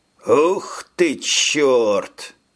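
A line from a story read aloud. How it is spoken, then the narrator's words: Breathless, wounded. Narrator (Russian): выдохнул подраненный Таурос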